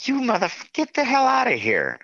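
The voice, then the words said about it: Screaming, yelling angrily. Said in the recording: “I'm screaming at him ... some wild man yelling and screaming”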